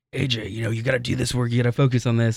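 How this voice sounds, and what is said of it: Imitates another person's voice. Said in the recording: “that was like the impression of my dad ... That would scare me if she had that voice.”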